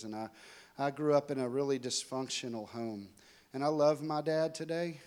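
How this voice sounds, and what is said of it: Texan accent. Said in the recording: “I'm from Dallas, Texas, if you can't tell by the accent. So I travel all around, so I may have lost some of it”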